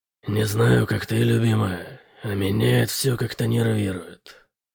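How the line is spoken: Barely audible quiet voice. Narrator (Russian): сказал Бытрим тихим голосом, который был едва слышен на фоне шума

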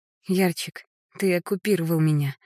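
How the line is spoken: Tender laughter. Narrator (Russian): засмеялась нежно

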